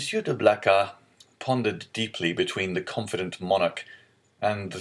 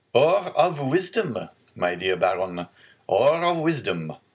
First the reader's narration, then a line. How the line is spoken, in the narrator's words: said Louis XVIII, laughing